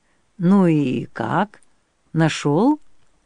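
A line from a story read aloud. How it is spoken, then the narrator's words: Quiet question. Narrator (Russian): тихо спросил Бессон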